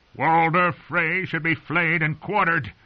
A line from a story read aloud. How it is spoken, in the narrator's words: he'd shouted